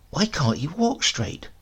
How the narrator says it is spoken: whispered

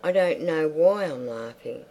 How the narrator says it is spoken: The long soft peal sounded, even while she cried

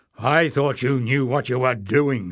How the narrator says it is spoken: snarled Glock

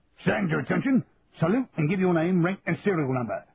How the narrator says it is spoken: barked CSM Philpott

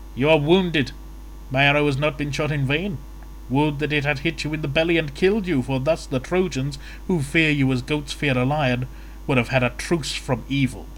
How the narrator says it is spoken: Paris, with a hearty laugh, taunted him, saying

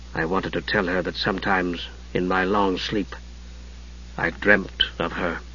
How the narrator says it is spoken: he said softly

